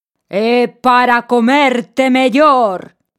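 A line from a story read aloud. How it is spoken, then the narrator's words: Wolf's shout. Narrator (Galician): berrou o lobo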